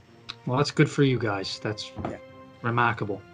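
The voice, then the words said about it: Weak put-on Boston accent. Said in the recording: “It was more Boston than anything... I don't know what accent that is anymore... your accent's funny, sir... I'm not very good at it.”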